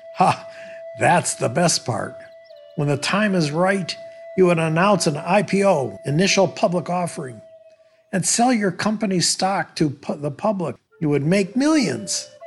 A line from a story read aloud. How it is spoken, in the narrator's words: The American laughed and said